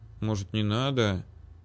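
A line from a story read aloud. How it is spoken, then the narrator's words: Quiet mutter under breath. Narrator (Russian): тихонько пробормотал я себе под нос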